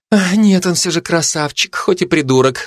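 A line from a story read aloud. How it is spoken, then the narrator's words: Sigh. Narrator (Russian): вздохнула Бородинская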